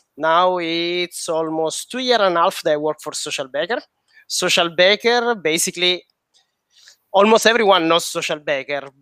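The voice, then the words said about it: Sicilian Italian-accented English. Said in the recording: “my accent speaks for me. ... I'm Sicilian, but I'm based in Paris.”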